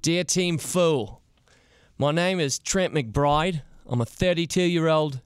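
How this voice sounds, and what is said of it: Fake accent imitating letter writer. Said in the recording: “my best effort at Trent's accent ... I will quickly drop the fake accent”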